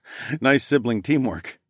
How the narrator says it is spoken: I chuckled

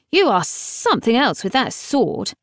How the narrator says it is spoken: she said gruffly

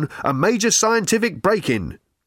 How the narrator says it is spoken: barked the megaphone

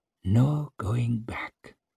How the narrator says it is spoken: whispered Muslin in his own tongue

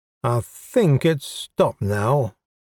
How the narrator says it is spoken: Mordack said slowly and clearly

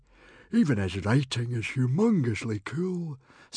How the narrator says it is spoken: sighed Baggy Bum

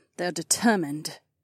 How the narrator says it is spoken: Kat said grimly

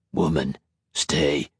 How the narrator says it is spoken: Typhon grunted

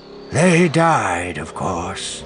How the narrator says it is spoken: he said, his voice distant

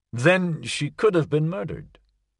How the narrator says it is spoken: Christine said

